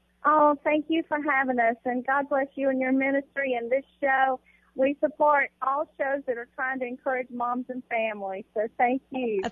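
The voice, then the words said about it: Calm Southern American accent. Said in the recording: “she says she's not calm, but with that Southern accent”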